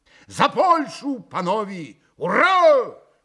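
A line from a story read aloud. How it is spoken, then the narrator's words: Shouting. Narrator (Russian): прокричал Митя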